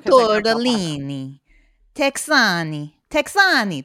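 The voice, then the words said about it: Put-on Italian accent. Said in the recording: “How do you say it with an Italian accent? ... That sounds like Italian.”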